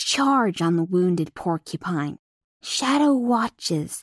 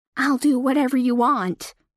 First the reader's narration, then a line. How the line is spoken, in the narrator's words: Thorn pleads again